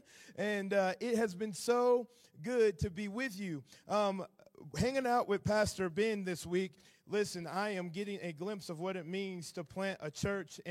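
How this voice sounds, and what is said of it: Southern American accent. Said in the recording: “Hopefully my southern accent is not too thick”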